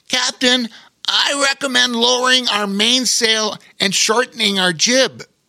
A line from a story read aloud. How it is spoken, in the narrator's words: Bobo Chico called out